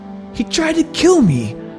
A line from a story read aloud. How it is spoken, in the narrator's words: yelled as he swam